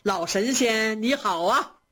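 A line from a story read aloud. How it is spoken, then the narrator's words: Smiling. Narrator (Chinese): 贾母笑着说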